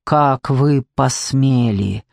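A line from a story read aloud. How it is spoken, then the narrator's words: Through gritted teeth. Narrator (Russian): спросил сквозь зубы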